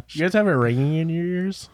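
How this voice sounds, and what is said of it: Put-on Minnesotan accent. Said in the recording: “That's a really good Minnesotan accent.”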